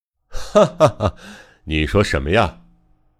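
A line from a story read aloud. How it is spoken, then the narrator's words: Laughing. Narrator (Chinese): 横川笑着说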